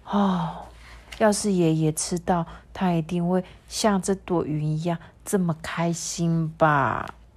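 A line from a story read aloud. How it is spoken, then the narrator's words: Sighing. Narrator (Chinese): 米诺就叹了一口气啊，说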